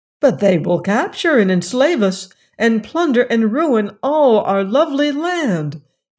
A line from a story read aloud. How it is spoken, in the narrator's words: exclaimed the wizard, greatly disturbed by this statement